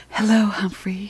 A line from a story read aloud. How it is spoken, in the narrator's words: she whispers